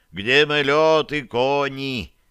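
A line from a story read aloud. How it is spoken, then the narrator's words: Loud declaration. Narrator (Russian): громко заявила хозяина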